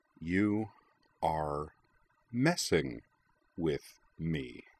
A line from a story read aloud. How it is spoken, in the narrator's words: said Jing slowly